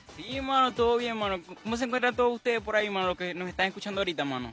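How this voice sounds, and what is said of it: Venezuelan Spanish accent. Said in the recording (Spanish): “ese acento venezolano que tú traes”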